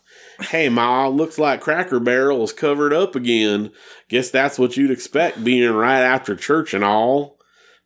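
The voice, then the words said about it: Put-on Southern accent. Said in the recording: “he's asking me to use my best Southern accent. So here we go.”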